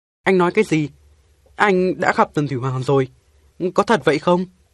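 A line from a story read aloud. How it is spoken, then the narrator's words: Two voices exclaiming together. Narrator (Vietnamese): Tôi và Cáo Con cùng đồng thanh kêu lên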